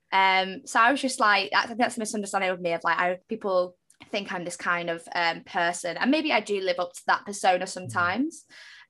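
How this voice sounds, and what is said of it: Manchester accent. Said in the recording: “I am from Manchester. I have this accent.”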